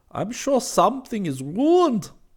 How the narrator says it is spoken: he exclaimed

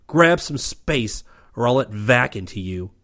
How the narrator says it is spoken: shouted

